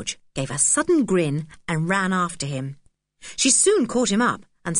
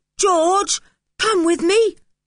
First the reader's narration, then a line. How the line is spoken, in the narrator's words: yelled Julian